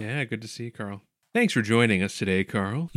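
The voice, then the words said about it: Smooth public-radio announcer voice. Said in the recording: “that was some NPR voice”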